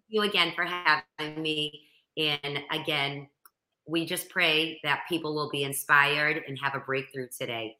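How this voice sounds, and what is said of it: Boston accent. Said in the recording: “I have the real Boston accent”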